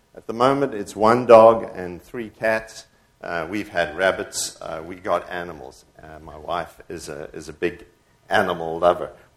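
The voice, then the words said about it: South African accent. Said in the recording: “We were all born in South Africa, hence the funny accent.”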